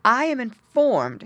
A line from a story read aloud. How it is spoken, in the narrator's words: she cried